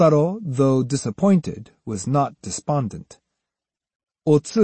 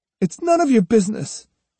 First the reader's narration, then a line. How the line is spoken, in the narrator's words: she said sharply